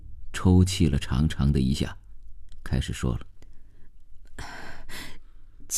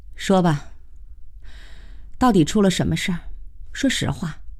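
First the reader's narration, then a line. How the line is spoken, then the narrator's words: Heavy sigh. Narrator (Chinese): 慧娟长叹了一声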